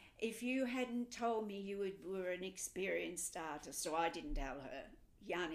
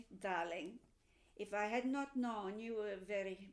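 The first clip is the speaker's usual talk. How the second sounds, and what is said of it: Mimicked Hungarian accent. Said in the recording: “I'll drop the Hungarian accent. ... there's that mimic coming through.”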